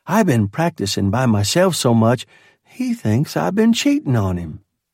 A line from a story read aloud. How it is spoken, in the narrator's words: she laughed and added